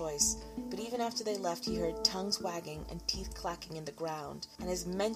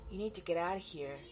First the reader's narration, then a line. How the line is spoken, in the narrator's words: Dennis Kula said